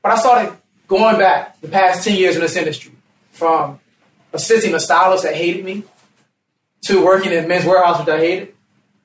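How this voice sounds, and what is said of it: Southern US accent, fast speech. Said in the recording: “I speak a little fast, you know. I got an accent from the South, from Virginia.”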